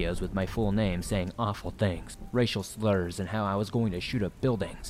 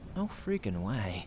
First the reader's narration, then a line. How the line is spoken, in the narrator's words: whispered